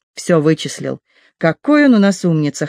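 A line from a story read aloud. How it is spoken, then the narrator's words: Amused snort. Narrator (Russian): хмыкнул Винтер, обращаясь к Энн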